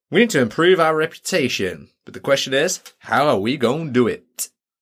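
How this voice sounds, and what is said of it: Put-on accent. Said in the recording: “not with that accent”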